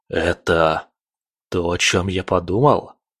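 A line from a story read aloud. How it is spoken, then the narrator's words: Muttered. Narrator (Russian): пробормотал он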